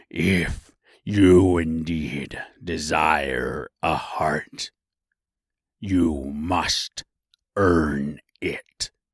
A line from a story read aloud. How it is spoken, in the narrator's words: Oz gave a low growl at this, but said gruffly